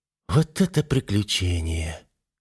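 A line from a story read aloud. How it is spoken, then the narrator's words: Contented murmur. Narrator (Russian): пробормотала она, наслаждаясь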